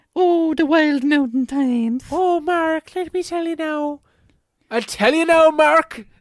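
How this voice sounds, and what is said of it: Fake Irish accent. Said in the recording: “We should do this part in an Irish accent. A fake Irish accent.”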